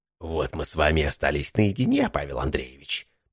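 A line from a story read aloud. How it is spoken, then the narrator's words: Hiss. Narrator (Russian): прошипел Биркин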